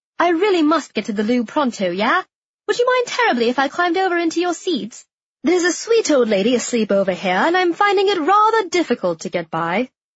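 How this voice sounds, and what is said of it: Put-on British accent. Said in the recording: “people listen when you're British ... my mother's undyingly cool accent”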